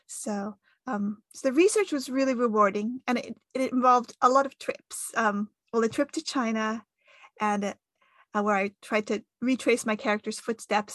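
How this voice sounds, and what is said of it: American accent. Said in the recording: “as you can tell from my accent, I'm American”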